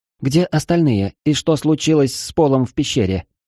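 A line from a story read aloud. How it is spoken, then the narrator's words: Calm question. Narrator (Russian): спокойно спросила Аврора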